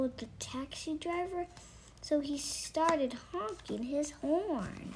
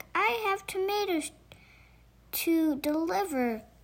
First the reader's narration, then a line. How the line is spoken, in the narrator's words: he shouted